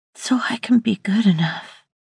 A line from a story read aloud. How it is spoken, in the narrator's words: she whispered so very softly